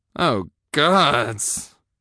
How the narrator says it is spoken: I wheezed

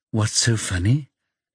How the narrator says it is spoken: Jackie asks calmly

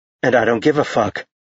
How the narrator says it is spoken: he said coldly

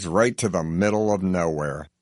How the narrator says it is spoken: he mutters

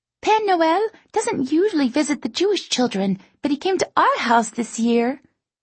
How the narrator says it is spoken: she chirps

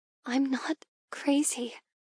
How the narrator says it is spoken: I whisper, tears pricking at my lids

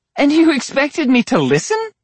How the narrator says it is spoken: She laughed

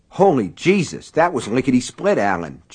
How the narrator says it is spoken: John exclaimed

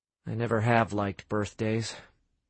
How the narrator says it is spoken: Sam muttered

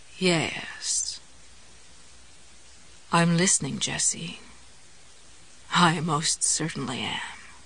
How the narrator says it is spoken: in his new purring voice, the word came out

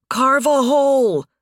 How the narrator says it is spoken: Nathan shouted

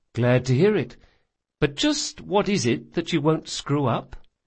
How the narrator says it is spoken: Bug sighed

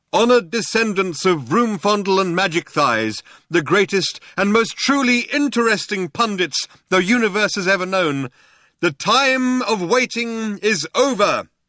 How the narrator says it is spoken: he cried out

